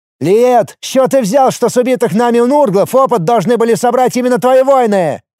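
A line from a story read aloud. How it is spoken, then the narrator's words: Loud yelling. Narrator (Russian): орал в голос Лиур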